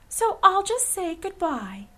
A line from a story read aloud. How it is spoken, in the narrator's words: exclaimed Dorothy